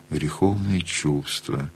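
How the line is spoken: Quiet. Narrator (Russian): она сказала тихо

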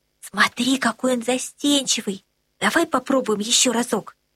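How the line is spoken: Whisper. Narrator (Russian): Анна прошептала

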